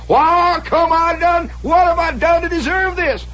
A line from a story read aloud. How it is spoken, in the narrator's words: he's hollering